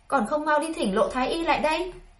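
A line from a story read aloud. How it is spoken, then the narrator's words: Shouted order. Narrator (Vietnamese): quát cung nữ bên cạnh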